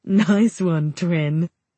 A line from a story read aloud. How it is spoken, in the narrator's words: Logan laughs